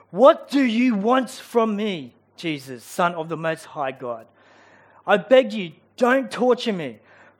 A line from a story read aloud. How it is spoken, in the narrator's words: he cried out, shouting at the top of his voice